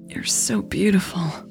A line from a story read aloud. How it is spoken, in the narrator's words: Natalie said, gasping for air